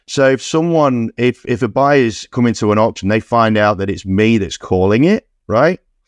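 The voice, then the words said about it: Foreign accent, sounds a bit unusual. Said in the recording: “me and my foreign accent, right? I sound a little bit weird”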